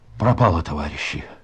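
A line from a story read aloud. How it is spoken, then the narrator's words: Halting convulsive whisper. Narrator (Russian): Прерывистым, судорожным шепотом произнес он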